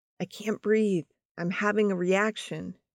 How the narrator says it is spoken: Donna was able to whisper to the nurse's station

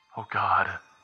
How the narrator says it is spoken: Brett whispered

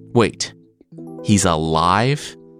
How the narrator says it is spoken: Eddard sputtered

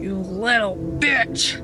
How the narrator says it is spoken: She snarled

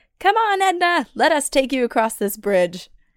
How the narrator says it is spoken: we called out to Edna saying

